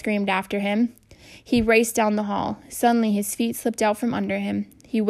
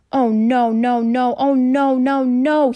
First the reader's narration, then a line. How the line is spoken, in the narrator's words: he groaned